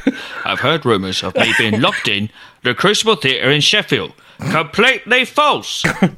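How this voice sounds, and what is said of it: Decent Michael Caine impression. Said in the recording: “That's not a bad impression ... I was given tips on it by Peter Serafinowicz himself, who may do the greatest Michael Caine impression I've ever heard.”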